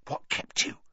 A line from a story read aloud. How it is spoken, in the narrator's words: Ron hissed